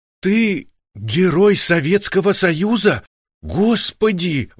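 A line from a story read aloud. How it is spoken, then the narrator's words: Exclamation. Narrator (Russian): воскликнула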